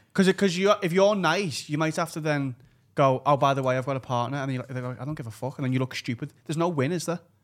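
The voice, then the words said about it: Strong, hard-to-understand accent. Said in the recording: “I have such a hard time understanding your accent”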